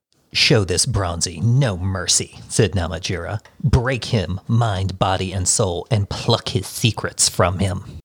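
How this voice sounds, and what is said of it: Creepy character voice. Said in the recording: “That was a nice, creepy voice.”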